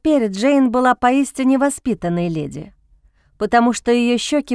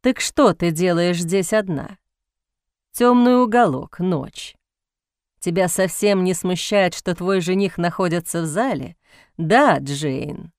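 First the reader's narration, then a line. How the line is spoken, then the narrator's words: Mocking male voice. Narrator (Russian): Мужской голос звучал насмешливо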